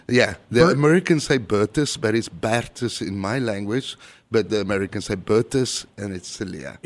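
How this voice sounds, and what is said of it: South African Afrikaans accent. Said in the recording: “I'm originally from South Africa. My first language is Afrikaans ... chicks dig the accent.”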